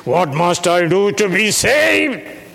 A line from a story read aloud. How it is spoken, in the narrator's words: He cried out in the middle of the night